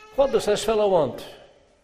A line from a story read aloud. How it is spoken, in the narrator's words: one of them asked indignantly